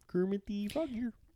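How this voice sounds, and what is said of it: Kermit the Frog impression. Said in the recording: “I cannot do Fozzie. I can do Kermit.”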